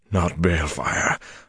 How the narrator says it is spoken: Luce Theron panted at him

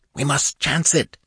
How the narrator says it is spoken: gasped Nabonidus

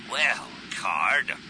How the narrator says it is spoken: he growled

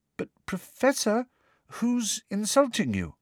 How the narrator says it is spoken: asked Parvati timidly

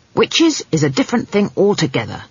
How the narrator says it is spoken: snapped Granny Weatherwax

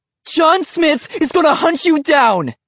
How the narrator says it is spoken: she screams

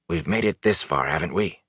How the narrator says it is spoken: He asked in a hoarse whisper

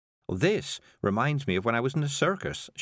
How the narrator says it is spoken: she said

